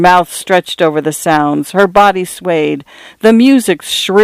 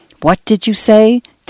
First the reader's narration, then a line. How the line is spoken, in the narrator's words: Dan whispered to Cynthia